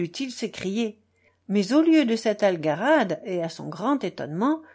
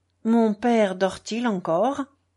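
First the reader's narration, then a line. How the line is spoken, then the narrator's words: Resigned tone. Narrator (French): demanda-t-il d'un ton résigné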